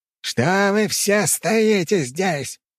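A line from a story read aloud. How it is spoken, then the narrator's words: Roaring. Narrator (Russian): взревел канцлер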